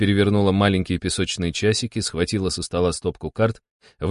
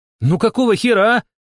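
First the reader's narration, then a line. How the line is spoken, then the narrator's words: Shout. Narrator (Russian): крикнула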